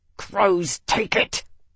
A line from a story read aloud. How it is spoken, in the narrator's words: Tavi snarled